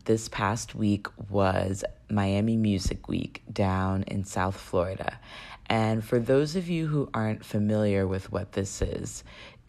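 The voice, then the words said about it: Raspy voice. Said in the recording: “my voice sounds a little raspy”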